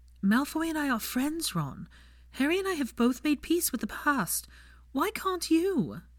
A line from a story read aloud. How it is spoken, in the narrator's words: she pleaded